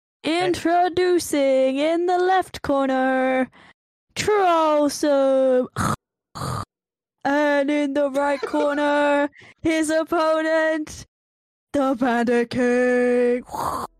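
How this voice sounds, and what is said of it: Ring announcer impression. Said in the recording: “I'm still a ring announcer Yeah, impression.”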